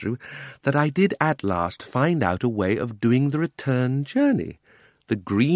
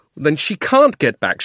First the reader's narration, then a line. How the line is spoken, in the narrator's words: shouted Digory